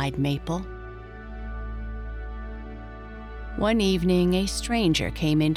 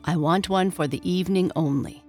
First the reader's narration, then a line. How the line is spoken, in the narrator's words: said the stranger